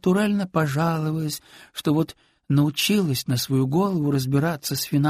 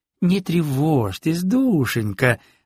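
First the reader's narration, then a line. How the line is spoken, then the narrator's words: Exclaimed. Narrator (Russian): воскликнула она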